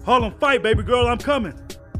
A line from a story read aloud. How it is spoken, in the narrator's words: Uncle Jax yelled